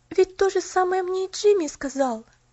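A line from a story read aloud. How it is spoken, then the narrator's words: Exclaiming. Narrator (Russian): воскликнула она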